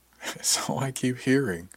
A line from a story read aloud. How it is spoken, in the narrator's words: I said with a chuckle